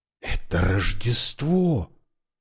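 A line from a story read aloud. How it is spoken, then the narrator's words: Whispered. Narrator (Russian): прошептал Брайан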